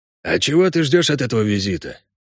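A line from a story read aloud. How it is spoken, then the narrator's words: Quiet question. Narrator (Russian): тихо спросил кобальт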